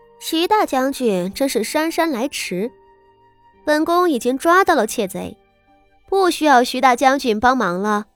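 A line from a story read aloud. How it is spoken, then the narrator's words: Cold sneer. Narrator (Chinese): 昭娇不禁冷笑道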